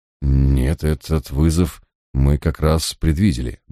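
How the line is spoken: Grumbling. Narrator (Russian): буркнул я

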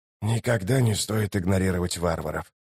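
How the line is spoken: Whisper. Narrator (Russian): прошептал Ток

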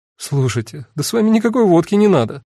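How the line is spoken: Sighing. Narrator (Russian): вздохнула Эва

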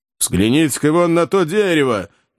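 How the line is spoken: Shouting. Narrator (Russian): закричал Кеннеди

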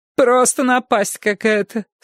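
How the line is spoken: Moaning. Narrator (Russian): стонала Фернанда

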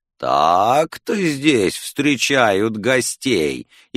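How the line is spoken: Mocking drawl. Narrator (Russian): издевательски протянул голос слева

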